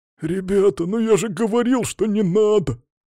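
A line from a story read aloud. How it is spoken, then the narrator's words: Whining. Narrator (Russian): Все скулил пузырь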